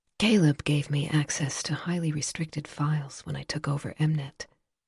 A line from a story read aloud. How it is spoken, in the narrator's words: Silver said, her tone quiet